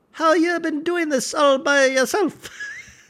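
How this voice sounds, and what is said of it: Higher-pitched boyish male voice. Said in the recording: “I can't do an Australian accent, but it's like he has a little bit higher pitched boy, uh, voice for such a beefy guy”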